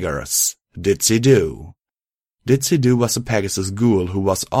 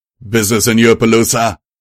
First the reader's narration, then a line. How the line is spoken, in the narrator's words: the voice yelled